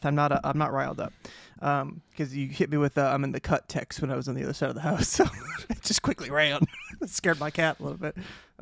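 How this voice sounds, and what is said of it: Breathless, out of breath speech. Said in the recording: “This time I'm just out of breath.”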